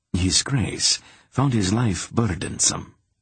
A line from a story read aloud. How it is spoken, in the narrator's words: Ranborun replied with a short laugh